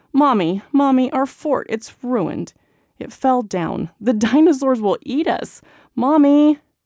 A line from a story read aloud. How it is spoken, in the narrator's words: inevitable shrieks and cries